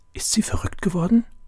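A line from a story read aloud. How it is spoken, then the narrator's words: Whispered. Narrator (German): flüsterte David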